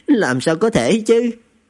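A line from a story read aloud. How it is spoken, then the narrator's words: Bursting laughter. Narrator (Vietnamese): Lý Thiên Thanh bật cười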